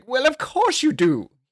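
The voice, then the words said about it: Poor put-on regal king accent. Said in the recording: “It's a terrible king accent”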